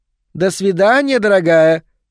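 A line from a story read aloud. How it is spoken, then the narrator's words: Shouted. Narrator (Russian): крикнула она, миссис Ванденберг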